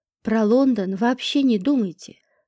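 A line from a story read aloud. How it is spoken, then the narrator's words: Calm. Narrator (Russian): спокойно сказала я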